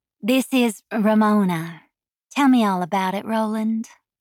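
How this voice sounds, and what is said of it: Throaty purring southern drawl. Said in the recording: “I purred in my throaty southern drawl.”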